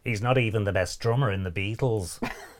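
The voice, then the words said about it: Imitates another person's voice. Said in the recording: “in your John Lennon voice”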